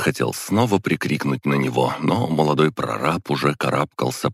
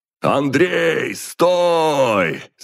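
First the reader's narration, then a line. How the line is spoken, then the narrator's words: Yelling. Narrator (Russian): заорал я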